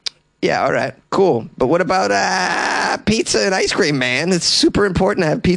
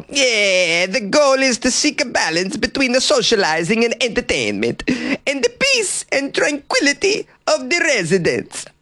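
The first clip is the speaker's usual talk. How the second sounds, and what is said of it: Impression of the mayor Marco Granelli. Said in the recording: “I'm going to do an impression of Marco.”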